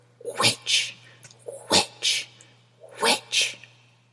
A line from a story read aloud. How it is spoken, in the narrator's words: A hostile voice is repeatedly hissing